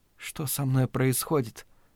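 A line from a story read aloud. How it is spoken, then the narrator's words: Whispered. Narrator (Russian): прошептала она темноте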